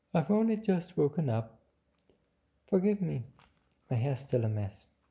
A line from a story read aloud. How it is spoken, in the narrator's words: the flower yawned and said